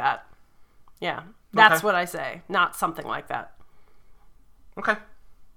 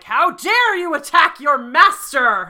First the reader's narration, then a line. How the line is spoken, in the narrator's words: shout